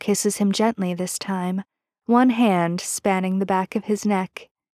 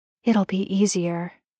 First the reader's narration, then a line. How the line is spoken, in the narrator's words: he murmurs